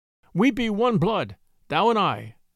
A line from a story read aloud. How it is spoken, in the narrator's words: Mowgli answered